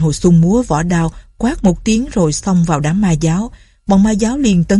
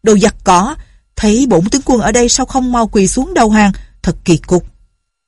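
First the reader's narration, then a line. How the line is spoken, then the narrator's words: Loud. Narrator (Vietnamese): Lệnh Hồ Xung lớn tiếng nói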